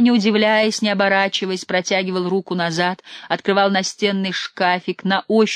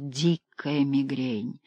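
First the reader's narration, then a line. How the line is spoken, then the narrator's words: Whispering. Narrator (Russian): Актер шептал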